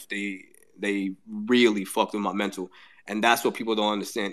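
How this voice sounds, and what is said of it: Choked up, emotional voice. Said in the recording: “I don't know if you can hear. I'm getting a little choked up even now talking about it”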